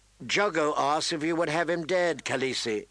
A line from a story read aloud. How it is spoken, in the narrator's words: Irra said